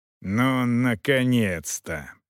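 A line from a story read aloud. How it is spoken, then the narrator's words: Growling. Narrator (Russian): прорычал даже Роха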